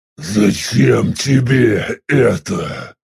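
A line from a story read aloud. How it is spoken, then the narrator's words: Hoarse rasp, coughing. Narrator (Russian): После небольшой паузы прохрипел … и снова зашелся в кашле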